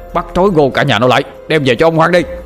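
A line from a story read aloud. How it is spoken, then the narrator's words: Approaching shouting. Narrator (Vietnamese): tiếng quát tháo ngày càng gần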